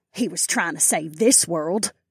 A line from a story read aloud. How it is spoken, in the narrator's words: my aunt scoffed